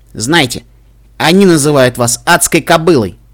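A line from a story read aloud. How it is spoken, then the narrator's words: Angry. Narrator (Russian): сказала охранница сердито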